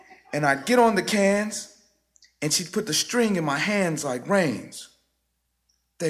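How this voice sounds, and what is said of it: Usual voice. Nothing is said of it.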